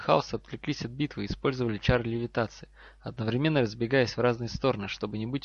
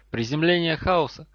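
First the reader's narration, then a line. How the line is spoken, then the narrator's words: Shouted. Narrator (Russian): Невилл крикнул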